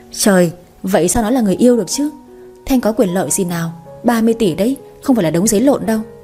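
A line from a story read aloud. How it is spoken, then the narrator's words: Wry laughing. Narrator (Vietnamese): Người kia bật cười nhăn nhó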